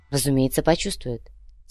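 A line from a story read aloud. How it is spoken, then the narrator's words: Calm reply. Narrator (Russian): спокойно отозвалась Милана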